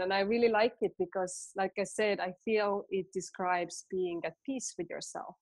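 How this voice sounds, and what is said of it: Estonian accent. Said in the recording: “I'm still having troubles pronouncing it. It's my Estonian accent.”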